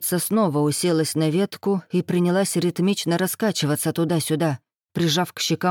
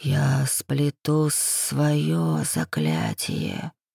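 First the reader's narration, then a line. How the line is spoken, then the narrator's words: Inhuman creature's whisper. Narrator (Russian): шептала на ухо нелюдь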